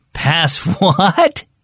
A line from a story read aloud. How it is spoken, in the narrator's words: Dad laughed